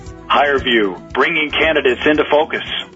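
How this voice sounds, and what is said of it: Radio announcer voice. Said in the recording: “in your best radio voice”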